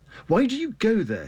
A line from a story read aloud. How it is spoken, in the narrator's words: he asked